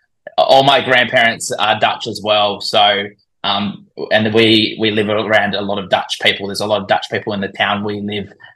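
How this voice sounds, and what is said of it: Australian accent. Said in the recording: “from your accent, it's more or less obvious you have an Antipodean origin ... So I'm assuming you're Australian ... I, I, can't hide it with my accent”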